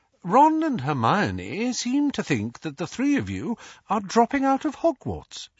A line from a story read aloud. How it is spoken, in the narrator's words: she began in a light, casual tone